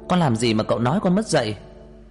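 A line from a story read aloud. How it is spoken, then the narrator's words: Furious shout. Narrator (Vietnamese): Tôi điên lên, hét lên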